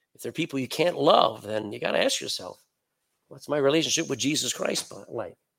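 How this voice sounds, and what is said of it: Speaks with a foreign accent. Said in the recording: “They notice my accents.”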